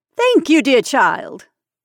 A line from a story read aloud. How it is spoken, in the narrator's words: said Miss Anderson, and laughing her light, nervous laugh